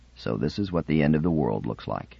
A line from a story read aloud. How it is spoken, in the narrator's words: Shirin said quietly